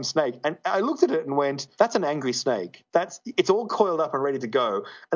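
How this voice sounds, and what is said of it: Australian accent. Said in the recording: “he heard my accent ... oh, you're Australian”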